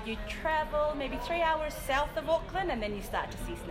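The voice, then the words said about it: Strong New Zealand accent. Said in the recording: “still lots of it. Still a big accent.”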